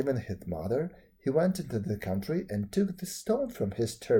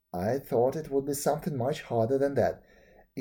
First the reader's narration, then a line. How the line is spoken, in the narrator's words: exclaimed the young man